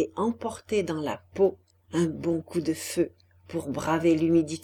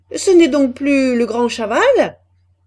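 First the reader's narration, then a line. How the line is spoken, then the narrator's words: Sneering. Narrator (French): disait un mineur en ricanant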